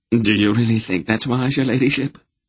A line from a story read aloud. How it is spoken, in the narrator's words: Jeebers asked nervously